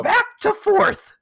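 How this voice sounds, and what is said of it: Grumpy old grandma voice. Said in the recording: “I don't even know what that voice was. It was like my grumpy old grandma voice.”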